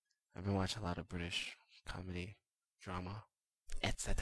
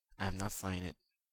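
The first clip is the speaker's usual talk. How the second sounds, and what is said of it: Fake British accent. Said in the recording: “I was kind of speaking in a really fake British accent.”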